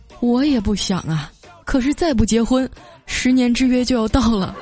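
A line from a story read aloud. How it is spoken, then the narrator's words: Sighing. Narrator (Chinese): 他叹了口气啊，说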